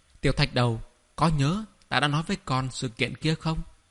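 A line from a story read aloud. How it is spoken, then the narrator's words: Calm, flat tone. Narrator (Vietnamese): Thẩm Thái mới mở miệng, ngữ khí bình thản, không đầu không đuôi thốt lên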